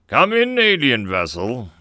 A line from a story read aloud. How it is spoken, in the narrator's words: the voice boomed